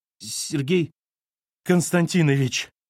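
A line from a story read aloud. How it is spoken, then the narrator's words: Hoarse croak, secretary. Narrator (Russian): прохрипела секретарша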